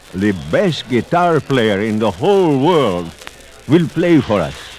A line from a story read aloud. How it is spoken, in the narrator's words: the rich man called out